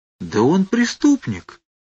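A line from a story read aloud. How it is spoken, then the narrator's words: Utterly astonished. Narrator (Russian): сказал Фарфуркис безмерно удивленным тоном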